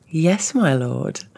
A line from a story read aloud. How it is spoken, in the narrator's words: Cherry giggled